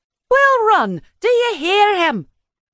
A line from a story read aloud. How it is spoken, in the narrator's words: she exclaimed